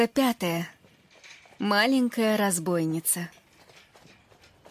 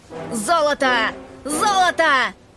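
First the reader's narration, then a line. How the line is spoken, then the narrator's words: Group shouting. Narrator (Russian): Закричали они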